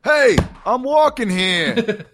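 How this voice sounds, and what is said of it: Put-on New York accent. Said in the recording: “give us your best New York accent send-off”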